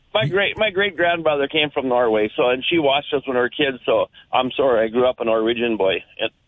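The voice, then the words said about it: Thick Minnesota accent. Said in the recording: “you embody that Minnesota accent so well ... you have the thickest Minnesota accent”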